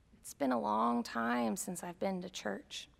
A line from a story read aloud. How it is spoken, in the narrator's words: he quietly said